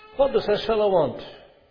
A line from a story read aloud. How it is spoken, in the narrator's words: one of them asked indignantly